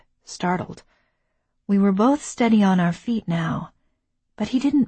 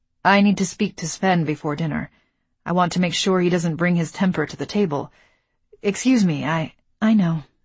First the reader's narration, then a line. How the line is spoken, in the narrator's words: I said flatly